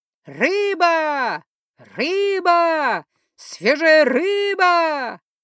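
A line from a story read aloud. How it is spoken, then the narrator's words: Street vendor's cry. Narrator (Russian): кричала ближайшая торговка рыбой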